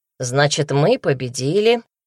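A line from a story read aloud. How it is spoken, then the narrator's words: Dry reply. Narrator (Russian): сухо ответил Даня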